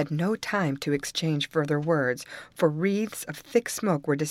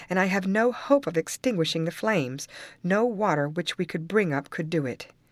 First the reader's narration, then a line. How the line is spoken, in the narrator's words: he exclaimed